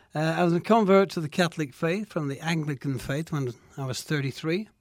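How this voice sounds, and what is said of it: Slight Manchester English accent. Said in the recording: “Manchester, England. ... There's a little accent. ... Yes, there is a little accent”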